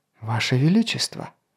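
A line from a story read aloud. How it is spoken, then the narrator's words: Whisper. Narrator (Russian): шепнул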